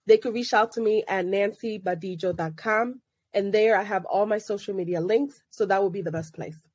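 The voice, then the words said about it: Congested, sick-sounding voice. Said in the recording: “I have a sinus infection ... apologize for my voice”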